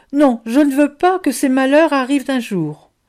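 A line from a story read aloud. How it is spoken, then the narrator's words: Exclaimed. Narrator (French): s'écria Boustru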